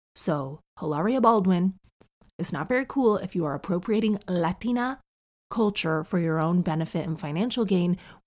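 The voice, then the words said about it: Neutral North American accent. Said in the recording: “We just spoke a neutral North American kind of a accent like the one people use on TV. And that is my accent to this day... My accent has not changed”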